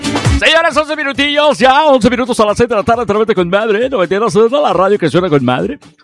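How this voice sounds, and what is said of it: Radio announcer voice. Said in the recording (Spanish): “me sale voz de locutor”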